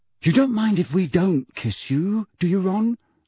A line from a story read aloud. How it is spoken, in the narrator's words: said Fred in a falsely anxious voice